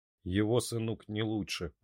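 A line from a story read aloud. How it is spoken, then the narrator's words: Grumbling. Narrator (Russian): проворчал Карвер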